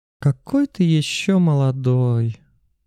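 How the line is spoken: Drawling. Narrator (Russian): протянула Джуна

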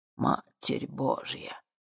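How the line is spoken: Sudden gasp. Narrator (Russian): выдохнул внезапно Игнатий

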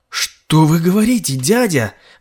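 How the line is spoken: Exclamation. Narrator (Russian): воскликнул Годфри

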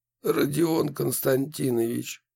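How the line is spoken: Muffled, hollow. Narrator (Russian): глухо произнес он

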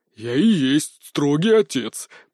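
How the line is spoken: Growled, head of house. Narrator (Russian): прорычал глава дома

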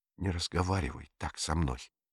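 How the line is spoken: Quiet. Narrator (Russian): тихо произнесла она

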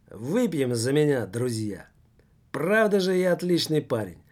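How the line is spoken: Exclaimed. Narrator (Russian): воскликнул Курилов

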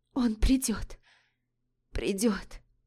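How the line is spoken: Hoarse, pained girl. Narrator (Russian): прохрипела девушка, ощущая боль во всем теле

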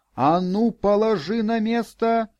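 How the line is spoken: Yelling. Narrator (Russian): завопила она

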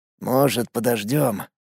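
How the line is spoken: Barely audible whisper. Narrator (Russian): Едва слышно прошептал Сергей

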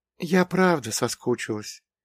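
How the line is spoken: Quiet. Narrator (Russian): тихо сказала Глаша

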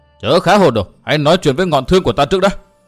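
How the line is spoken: Loud barking shout. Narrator (Vietnamese): Quách Lượng nạt lớn

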